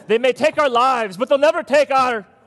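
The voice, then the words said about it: Put-on Scottish accent. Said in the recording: “It was the British accent that did it, so, or Irish accent? ... Scottish, yes. Yes, Scottish, yes.”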